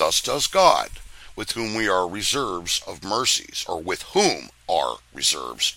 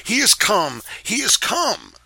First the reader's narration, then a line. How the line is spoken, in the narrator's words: he cried out with the clapping of his hands